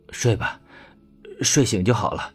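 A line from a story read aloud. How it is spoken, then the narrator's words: Low, tender voice. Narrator (Chinese): 魏正义 胖脸上满是心疼 低声道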